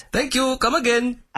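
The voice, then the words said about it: Bad put-on Indian accent. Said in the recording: “a white man doing a bad Indian accent”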